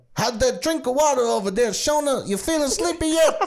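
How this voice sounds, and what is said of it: Imitates another person's voice. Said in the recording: “That was a weirdly good impression.”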